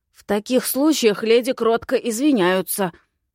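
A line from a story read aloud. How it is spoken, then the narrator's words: Hissing young man. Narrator (Russian): прошипел парень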